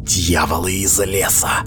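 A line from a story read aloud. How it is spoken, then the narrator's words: Whispering. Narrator (Russian): прошептала она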